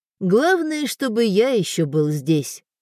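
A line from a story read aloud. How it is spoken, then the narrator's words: Wry snort. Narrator (Russian): хмыкнул Воинов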